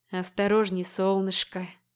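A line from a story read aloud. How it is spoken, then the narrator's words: Serpent whispering in ear. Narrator (Russian): шепнул мне в ухо змей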